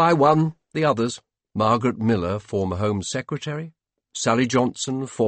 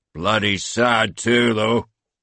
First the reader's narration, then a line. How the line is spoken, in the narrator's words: said Murdoch in a gravelly Ayrshire growl